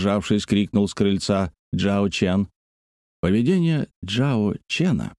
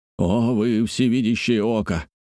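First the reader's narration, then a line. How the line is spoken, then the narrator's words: Exclaiming. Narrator (Russian): воскликнул Джоу Шао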